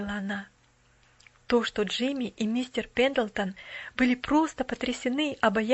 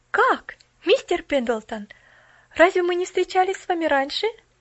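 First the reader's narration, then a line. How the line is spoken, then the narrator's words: Surprised exclamation. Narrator (Russian): воскликнула она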